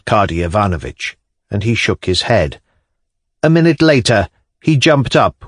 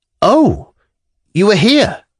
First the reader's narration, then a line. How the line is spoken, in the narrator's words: he cried with a start of dismay